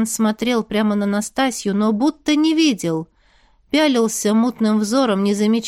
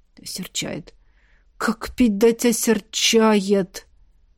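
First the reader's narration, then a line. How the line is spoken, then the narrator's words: Muttering under breath. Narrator (Russian): Бормотал Тихон себе под нос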